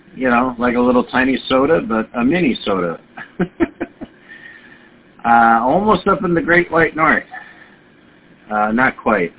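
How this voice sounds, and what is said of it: Minnesota regional American accent. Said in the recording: “I thought my accent would give it away. Minnesota.”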